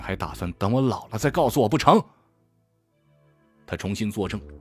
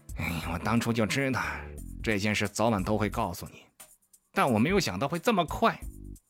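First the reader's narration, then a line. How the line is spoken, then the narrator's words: Sighing mumble. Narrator (Chinese): 他叹了口气，喃喃道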